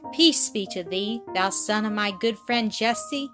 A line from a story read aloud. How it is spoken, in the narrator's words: he said